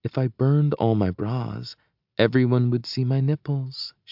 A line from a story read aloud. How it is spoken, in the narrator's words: she whispers, eyes dancing